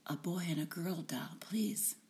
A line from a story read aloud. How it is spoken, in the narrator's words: I whispered